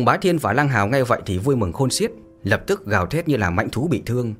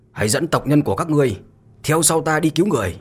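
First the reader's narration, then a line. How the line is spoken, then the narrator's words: Murderous loud shout. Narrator (Vietnamese): Mặt Mạnh Hổ tràn đầy sát cơ bừng bừng, lớn tiếng quát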